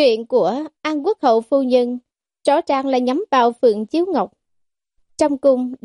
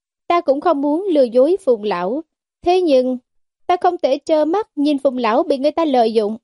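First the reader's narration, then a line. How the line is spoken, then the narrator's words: Soft sighing voice. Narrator (Vietnamese): Giảng Lục tiểu thư thở dài một hơi, nhẹ giọng nói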